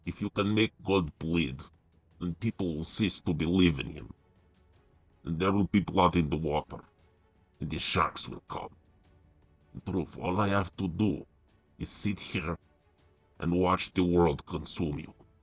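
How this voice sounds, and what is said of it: Attempted Russian accent. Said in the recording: “Tries to Do a Russian Accent.”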